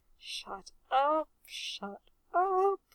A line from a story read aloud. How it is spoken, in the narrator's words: Reg moaned